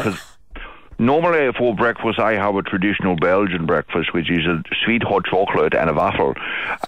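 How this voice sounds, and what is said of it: Noticeable foreign accent. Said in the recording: “I can hear you giggling at my accent. It's not very, it's not a funny accent. It's just an accent.”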